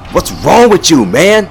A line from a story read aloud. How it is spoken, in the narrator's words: Scott yelled